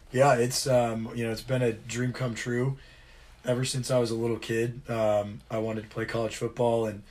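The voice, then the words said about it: Slightly hoarse voice. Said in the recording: “my voice is a little hoarse from the game Saturday... got to yell a lot on the field”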